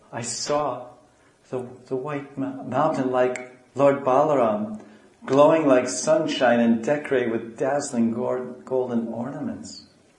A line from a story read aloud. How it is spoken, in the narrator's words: In a faltering voice, Gaura said